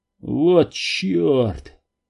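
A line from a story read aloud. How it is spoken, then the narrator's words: Muttered curse. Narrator (Russian): Пробормотал он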